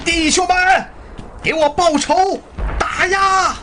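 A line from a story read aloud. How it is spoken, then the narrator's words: Angry shouting. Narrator (Chinese): 索开愤怒地大喊着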